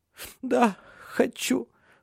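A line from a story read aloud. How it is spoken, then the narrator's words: Sobbing. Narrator (Russian): всхлипнула она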